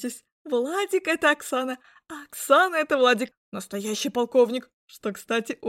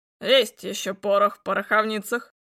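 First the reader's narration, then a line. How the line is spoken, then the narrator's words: Smirking grunt. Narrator (Russian): хмыкнул Мясников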